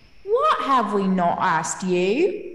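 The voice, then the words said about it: Put-on unidentified accent. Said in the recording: “I'm not sure what that accent is”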